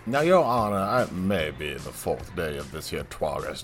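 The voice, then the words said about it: Country lawyer character voice. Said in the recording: “I may be a country vampire lawyer”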